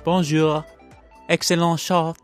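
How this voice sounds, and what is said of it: Put-on French accent. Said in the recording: “I apologize to all French people out there if you're offended by that accent. ... It was my best attempt.”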